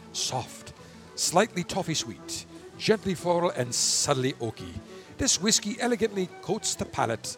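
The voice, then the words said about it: Put-on Irish accent. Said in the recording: “now I'm in my Irish accent again. I can't help it.”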